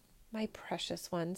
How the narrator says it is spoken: said the emperor sadly

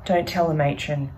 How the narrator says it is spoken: Sarah says

